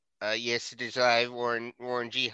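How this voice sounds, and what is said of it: Imitates another person's voice. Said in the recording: “What about that impression?”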